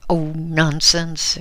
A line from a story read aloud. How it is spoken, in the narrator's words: exclaimed Mrs